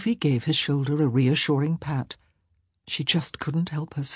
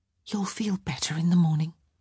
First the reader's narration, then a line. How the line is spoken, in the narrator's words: she whispered